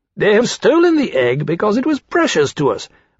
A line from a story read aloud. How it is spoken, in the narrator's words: Rankin said impatiently